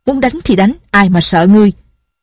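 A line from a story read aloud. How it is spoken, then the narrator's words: Angry. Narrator (Vietnamese): tức giận nói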